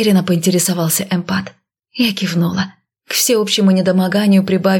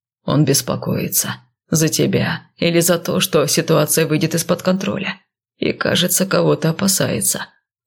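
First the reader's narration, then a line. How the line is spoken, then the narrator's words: Absent-minded mutter. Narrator (Russian): пробормотал рассеянно светлый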